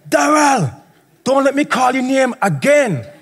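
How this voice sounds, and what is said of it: Strong put-on Jamaican accent. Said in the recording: “in a strong Jamaican accent”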